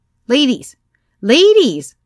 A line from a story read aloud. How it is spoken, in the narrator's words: I shouted